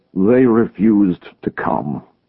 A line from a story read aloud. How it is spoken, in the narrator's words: he said in a dull voice